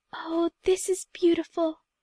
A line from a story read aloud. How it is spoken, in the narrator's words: breathed Emily